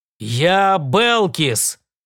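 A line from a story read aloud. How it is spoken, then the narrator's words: Growl. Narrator (Russian): прорычал он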